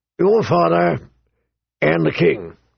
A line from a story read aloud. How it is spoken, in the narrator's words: he rumbled